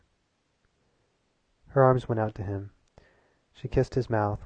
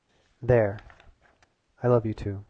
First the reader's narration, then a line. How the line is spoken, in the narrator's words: he said